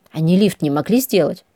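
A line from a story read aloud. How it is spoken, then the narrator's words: Grumble. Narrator (Russian): пробурчала я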